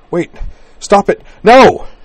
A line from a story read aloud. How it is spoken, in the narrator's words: she tore her mouth, gasping away from his, and cried